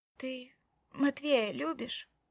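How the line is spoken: Quiet, very serious. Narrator (Russian): спросила она тихо и очень серьезно

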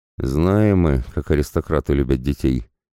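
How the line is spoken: Gloomy, musing aloud. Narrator (Russian): мрачно произнес парень, размышляя вслух о чем-то своем

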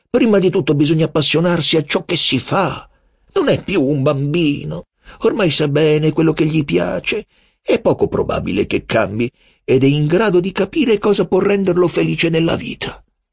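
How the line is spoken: Father exclaiming. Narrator (Italian): esclamò mio padre

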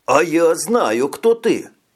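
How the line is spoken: Joyful exclamation. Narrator (Russian): радостно, как участник телевикторины, воскликнул Виктор

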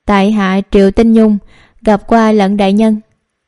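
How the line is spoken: Sighing. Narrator (Vietnamese): Nàng thở dài

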